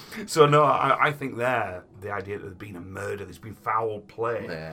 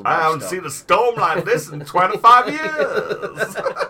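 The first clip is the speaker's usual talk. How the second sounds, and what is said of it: Put-on southern accent. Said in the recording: “nice southern accent.”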